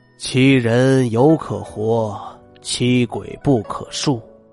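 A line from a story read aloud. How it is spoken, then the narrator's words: Old man sighing. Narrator (Chinese): 李老爷子叹着气说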